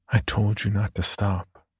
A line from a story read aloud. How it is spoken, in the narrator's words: whispered